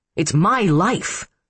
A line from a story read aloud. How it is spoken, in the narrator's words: Paul snapped